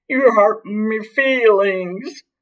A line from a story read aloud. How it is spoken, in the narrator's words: wailed